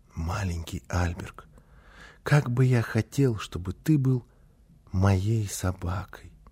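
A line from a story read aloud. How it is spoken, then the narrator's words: Secret soft whisper. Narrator (Russian): тихонько, так, чтобы мама не слышала, зашептал ему на ухо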